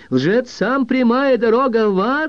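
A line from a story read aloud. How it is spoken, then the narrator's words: Shouted. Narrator (Russian): закричала Мэри Дулин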